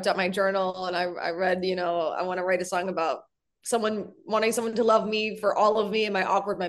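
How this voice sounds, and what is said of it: Usual voice. Nothing is said of it.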